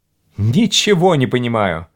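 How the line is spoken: Exclaiming. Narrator (Russian): воскликнул Кахиня

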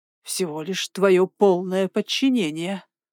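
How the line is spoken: Venomous hiss. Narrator (Russian): прошипел он, слова капали как яд

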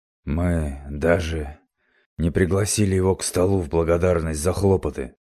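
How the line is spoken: Uneasy grumble. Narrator (Russian): проворчал Янус, которого несколько встревожил и даже расстроил столь поспешный отлет всадника

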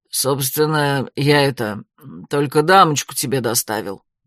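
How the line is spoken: Grumbling mutter. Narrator (Russian): пробурчал Курц

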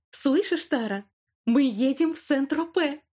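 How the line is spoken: Delighted squeal. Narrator (Russian): взвизгнула Вайлет, не скрывая восторга

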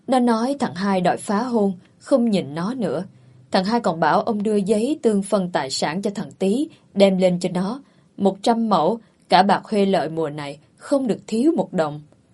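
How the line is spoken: Sighing. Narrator (Vietnamese): Bà hội đồng thở dài

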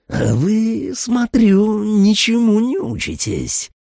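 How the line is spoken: Growl. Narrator (Russian): прорычала она

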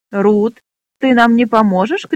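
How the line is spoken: Shout. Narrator (Russian): крикнул Джексон

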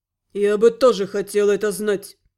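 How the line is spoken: Nervous, through gritted teeth. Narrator (Russian): процедил Гал, нервно

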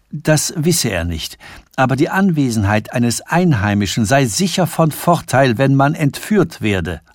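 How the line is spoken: Plain. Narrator (German): antwortete er

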